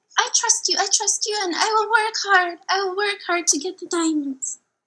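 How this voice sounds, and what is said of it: Put-on character accent. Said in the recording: “tell by my accent”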